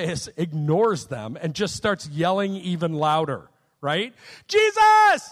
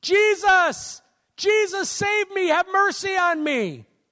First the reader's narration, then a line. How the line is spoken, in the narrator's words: gets kind of rude and he starts yelling out